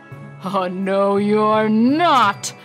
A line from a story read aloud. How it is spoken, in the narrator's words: bellowed the troll